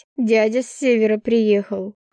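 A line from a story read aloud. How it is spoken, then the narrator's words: Wry snort. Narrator (Russian): хмыкнула я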